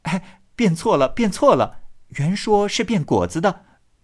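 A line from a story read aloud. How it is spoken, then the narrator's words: Hurried laughter, group. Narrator (Chinese): 众号忙笑道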